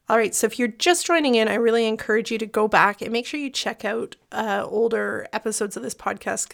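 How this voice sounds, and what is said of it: Slightly crackly, not fully recovered voice. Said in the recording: “my voice is still not 100%, so I apologize if it gets a little crackly through this episode.”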